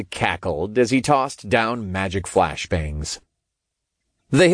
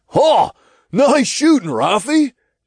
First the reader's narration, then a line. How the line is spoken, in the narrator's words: Todd called out from above